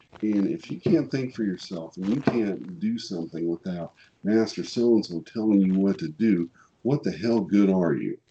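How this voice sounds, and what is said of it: Missouri accent. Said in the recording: “it's more of a Missouri accent than a Boston accent ... I speak hillbilly”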